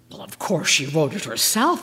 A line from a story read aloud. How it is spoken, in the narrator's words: I gasped